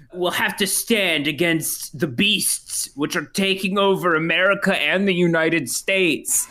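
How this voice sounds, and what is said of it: Imitates another person's voice. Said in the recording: “the signature Chris Pratt catchphrase ... crisp rat impression”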